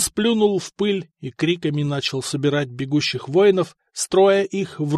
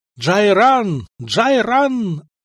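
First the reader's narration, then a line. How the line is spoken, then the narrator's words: Yelling. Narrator (Russian): орал он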